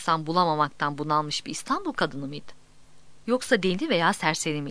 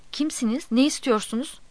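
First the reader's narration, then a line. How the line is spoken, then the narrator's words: Woman moaning. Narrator (Turkish): Kadın inleyerek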